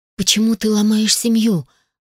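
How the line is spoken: Breathed out. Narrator (Russian): выдохнула я

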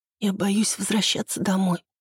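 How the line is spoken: Whisper, young woman. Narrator (Russian): прошептала девушка

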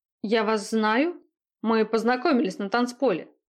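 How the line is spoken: Snorting. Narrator (Russian): хмыкнул вышибала

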